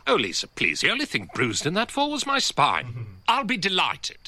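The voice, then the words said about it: Very posh upper-class English accent. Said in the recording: “He does have a very posh accent ... it is a very upper class accent.”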